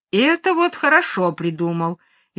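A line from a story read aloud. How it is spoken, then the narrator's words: Cheerful exclamation. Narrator (Russian): весело вскрикивает Горкин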